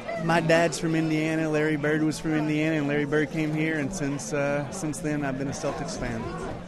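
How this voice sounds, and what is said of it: East Tennessee accent. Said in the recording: “a guy with an East Tennessee accent”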